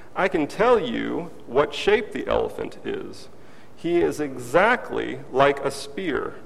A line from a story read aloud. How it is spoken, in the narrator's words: the second man exclaimed with a cry of dawning recognition